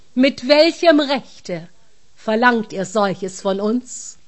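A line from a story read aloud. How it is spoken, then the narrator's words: Powerful voice. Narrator (German): fragte mit mächtiger Stimme die Räuber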